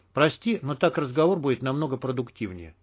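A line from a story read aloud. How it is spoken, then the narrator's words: Plain. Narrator (Russian): сказал Мякиш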